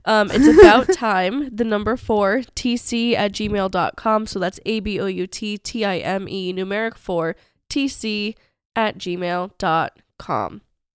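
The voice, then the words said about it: Sick, husky sultry voice. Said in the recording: “I apologize for my voice. It's getting, we're wrapping up the night here. So I'm a little extra... sicky,... sultry.”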